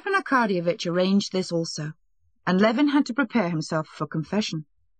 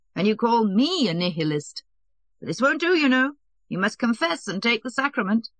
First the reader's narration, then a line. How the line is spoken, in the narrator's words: said Stepan Arkadyevitch, laughing